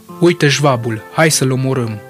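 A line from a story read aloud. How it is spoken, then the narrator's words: Joking shout. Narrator (Romanian): Un muntenegrean de rând, văzându-l, a strigat atunci în glumă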